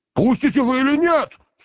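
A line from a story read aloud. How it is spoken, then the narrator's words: Shouting in terrible voice. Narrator (Russian): страшным голосом крикнул поэт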